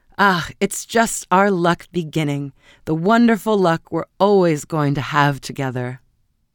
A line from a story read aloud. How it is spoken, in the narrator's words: cried gaily